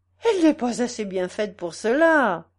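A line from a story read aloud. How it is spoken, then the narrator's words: Exclaiming. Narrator (French): s'écria l'illustre beauté du cirque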